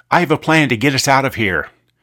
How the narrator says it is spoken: raised his voice, and said

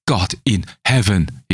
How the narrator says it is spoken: he cried

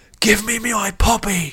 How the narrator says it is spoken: shouted

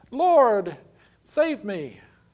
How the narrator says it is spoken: he was afraid, cried out

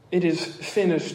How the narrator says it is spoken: he cries in John 19

